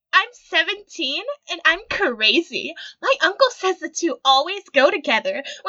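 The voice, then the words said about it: Manic pixie dream girl voice. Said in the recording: “Why does her voice sound like that? ... that's ... manic pixie dream girl voice.”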